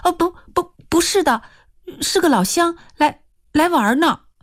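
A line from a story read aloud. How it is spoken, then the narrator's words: Hurried. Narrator (Chinese): 易晴娥急忙说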